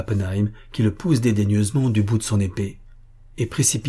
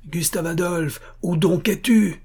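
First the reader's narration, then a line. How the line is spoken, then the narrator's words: Shouting again. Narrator (French): crie-t-il de nouveau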